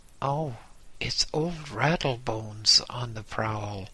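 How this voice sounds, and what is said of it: Frightened whisper. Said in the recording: “A frightened whisper.”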